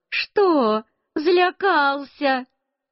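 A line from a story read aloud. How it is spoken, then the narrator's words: Said with laughter. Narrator (Russian): Тетя Одарка тоже засмеялась и сказала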